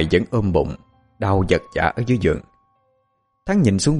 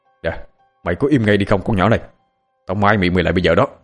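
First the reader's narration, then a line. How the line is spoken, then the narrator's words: Loud angry shout. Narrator (Vietnamese): Thắng sợ phòng bên nghe, quát lớn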